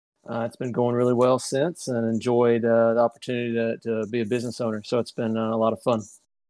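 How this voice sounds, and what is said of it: Southern US accent. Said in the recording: “that super sexy Southern accent.”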